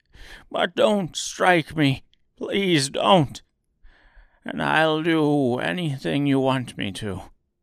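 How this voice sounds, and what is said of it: Trembling, frightened old man's voice. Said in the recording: “said the little man in a trembling voice.”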